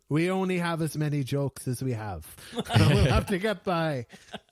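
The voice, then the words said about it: Put-on regional accent, self-described terrible. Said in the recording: “sorry if my accent is terrible”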